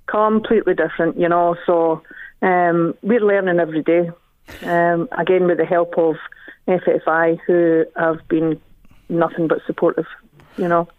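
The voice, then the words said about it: Speaks with a noticeable accent. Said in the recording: “you have a beautiful accent, may I say ... beautiful”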